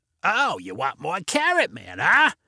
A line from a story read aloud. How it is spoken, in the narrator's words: replied Vinny in the raspy voice